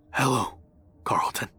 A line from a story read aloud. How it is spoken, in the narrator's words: quietly whispered